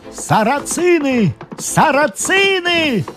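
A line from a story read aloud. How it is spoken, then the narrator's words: Shout. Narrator (Russian): кричал всадник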